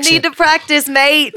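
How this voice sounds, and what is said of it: Put-on Australian accent. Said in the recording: “Your accent is incredible. ... Do I sound like I'm from Australia? ... Yeah, you do. I think somewhere. ... this accent. ... It's so good.”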